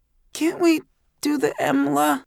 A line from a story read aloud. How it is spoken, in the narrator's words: asked in a little pathetic voice